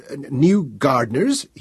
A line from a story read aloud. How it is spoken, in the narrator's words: stammered